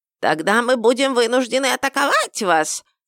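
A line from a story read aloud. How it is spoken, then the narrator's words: Goblin's hysterical squeak. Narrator (Russian): истерично пискнул гоблин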